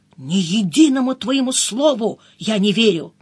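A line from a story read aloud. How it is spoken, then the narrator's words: Whispered. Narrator (Russian): прошептал мне перед отправкой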